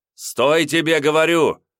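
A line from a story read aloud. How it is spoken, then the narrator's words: Shouted. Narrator (Russian): закричал Семенов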